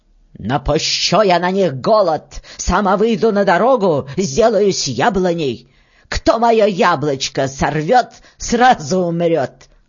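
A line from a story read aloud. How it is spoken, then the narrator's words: Loud woman's voice. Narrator (Russian): Старшая жена громким голосом говорит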